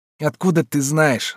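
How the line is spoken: Through gritted teeth. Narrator (Russian): спросил сквозь зубы Лёшка

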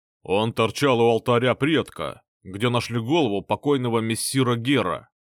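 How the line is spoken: Deep bass voice, guard. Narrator (Russian): пробасил какой-то охранник

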